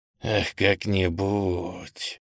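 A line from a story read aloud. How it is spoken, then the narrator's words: Hissing whisper, then furious cry. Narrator (Russian): каким-то свистящим шепотом повторяет он и потом яростно вскрикивает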